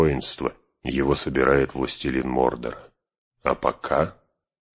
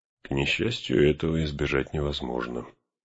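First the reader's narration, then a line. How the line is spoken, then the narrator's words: Muttered under breath. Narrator (Russian): пробормотал Гэндальф себе под нос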